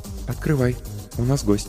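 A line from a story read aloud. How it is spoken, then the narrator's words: Quiet, from behind. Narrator (Russian): негромко сказала Ольга позади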